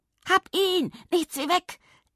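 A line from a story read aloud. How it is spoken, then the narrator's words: Shrill shriek. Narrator (German): kreischte eine grelle Stimme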